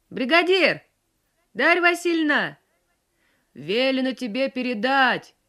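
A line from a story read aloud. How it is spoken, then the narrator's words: Old man shouting. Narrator (Russian): прокричал ей с коня пожилой и тоже весь мокрый старик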